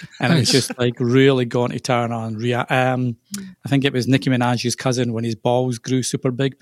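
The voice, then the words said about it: Mild softened Scottish accent. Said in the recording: “It sounds kind of Scottish. ... A wee bit ... probably softened a lot.”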